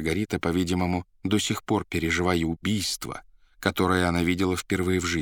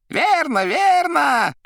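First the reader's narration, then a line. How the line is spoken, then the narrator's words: Shouted. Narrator (Russian): кричал Коровьев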